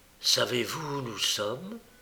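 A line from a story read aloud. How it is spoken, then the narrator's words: Murmured. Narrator (French): murmura-t-il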